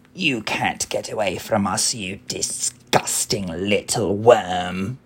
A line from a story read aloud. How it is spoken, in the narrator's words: Spiker and Sponge cackling